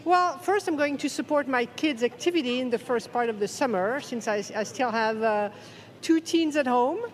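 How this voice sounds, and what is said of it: Slight French accent. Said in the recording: “I'm French. ... you hear the accent? ... I hear a slight accent”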